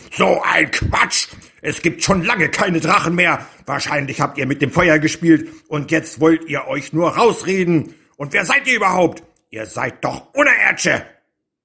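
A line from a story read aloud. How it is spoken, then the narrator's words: Bellowing. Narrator (German): brüllte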